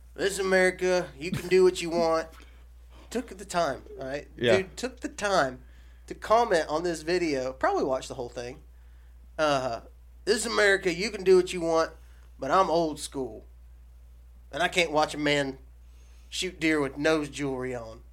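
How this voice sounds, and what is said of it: Put-on accent imitating a commenter. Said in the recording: “I'm going to do it with my accent that I think he probably talked in.”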